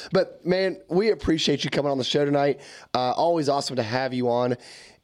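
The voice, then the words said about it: Hoarse voice from a cold. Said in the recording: “I've been battling a cold, so I'm losing my voice”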